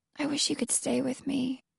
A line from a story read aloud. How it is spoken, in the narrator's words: Alex whispering